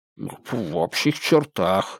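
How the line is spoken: Reluctant mumble. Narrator (Russian): неохотно пробормотал Кок

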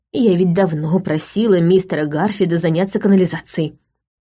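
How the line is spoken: Grumbling. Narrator (Russian): проворчала Райт

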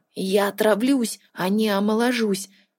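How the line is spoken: Frightened whisper. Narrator (Russian): шепотом произнес Тин с откровенным испугом

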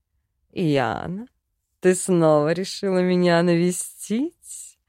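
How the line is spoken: Drawling, drowsy. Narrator (Russian): протянул он, не открывая глаз

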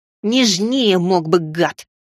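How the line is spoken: Hissing in pain. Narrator (Russian): прошипел я, скривившись от боли

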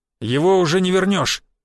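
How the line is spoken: Loud, for all to hear. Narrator (Russian): громко, но чтобы все слышали, произнес Буян

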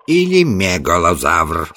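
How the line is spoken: Plain. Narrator (Russian): сказал Саммерли

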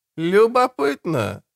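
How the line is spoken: Thoughtful drawl. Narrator (Russian): задумчиво тянет Кром

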